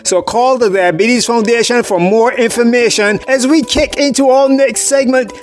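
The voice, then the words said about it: English accent. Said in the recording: “when you hear my English accent”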